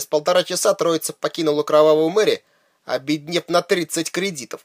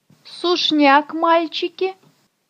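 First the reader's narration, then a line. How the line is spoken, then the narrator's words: Purring, worn-looking girl. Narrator (Russian): промурлыкала потасканного вида девушка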